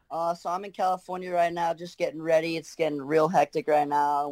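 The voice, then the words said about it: Australian accent. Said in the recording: “Keep that Aussie accent, mate. Keep that Aussie accent.”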